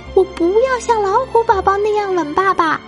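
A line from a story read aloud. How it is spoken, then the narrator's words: Child's cry. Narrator (Chinese): 熊宝宝叫道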